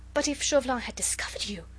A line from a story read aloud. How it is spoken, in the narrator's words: she gasped excitedly